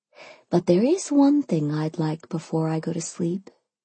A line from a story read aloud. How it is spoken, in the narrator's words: I purred